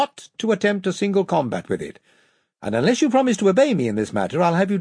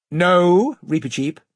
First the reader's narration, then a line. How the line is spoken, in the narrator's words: said the King very firmly